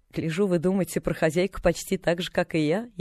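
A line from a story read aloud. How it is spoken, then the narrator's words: Snide. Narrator (Russian): ехидно проговорила она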